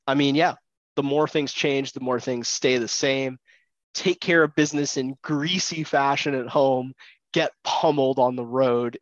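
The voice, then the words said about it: Nasal, congested voice. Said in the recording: “My allergies are bucking their heads. So if I sound a little weird, a little nasally”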